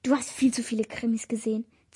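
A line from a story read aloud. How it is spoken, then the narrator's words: Hiss. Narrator (German): zischte Louis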